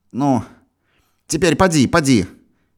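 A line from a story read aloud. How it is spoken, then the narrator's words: Stern, angry, impatient. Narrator (Russian): сурово сжав брови сердито и нетерпеливо говорила сестра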